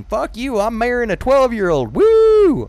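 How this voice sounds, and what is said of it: Put-on Southern US accent. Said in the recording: “I do a southern accent like it's in the south. Like the automatic go-to accent for ignorance is southern”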